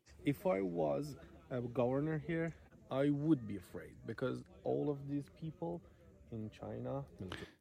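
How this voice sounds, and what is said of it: Heavy accent, hard to understand. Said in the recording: “It's a little bit difficult because of his accent.”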